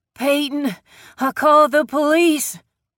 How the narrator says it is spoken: Grace wheezed as she tried to speak

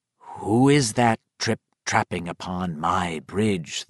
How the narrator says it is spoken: the librarian said in the low, growling tones of the troll in the story

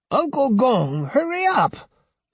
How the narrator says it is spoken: Osugi cried impatiently

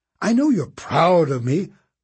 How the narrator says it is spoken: Constance said in an exasperated tone

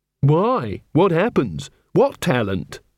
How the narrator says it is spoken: she said

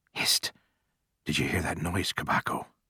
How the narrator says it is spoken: Archie, one of the cordon, whispered to his neighbor

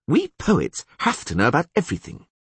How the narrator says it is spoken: said Dandelion haughtily

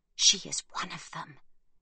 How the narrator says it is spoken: hisses Chaya

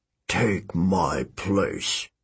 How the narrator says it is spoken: he muttered

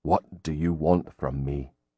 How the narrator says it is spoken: Grim said quietly

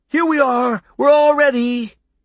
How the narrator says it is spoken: he was shouting to Toby and Pete

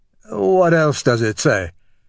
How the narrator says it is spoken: he asked, his voice slightly squeaky from the effort of keeping the laughter in

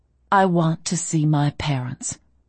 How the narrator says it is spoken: I said coolly

